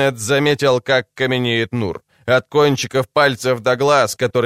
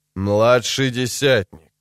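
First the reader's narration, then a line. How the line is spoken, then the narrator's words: Forced calm. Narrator (Russian): произнес лейтенант настолько спокойно, насколько сумел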